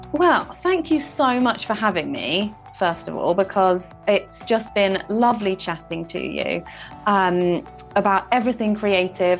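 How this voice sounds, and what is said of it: Distinctive non-American accent. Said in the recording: “I love your accent.”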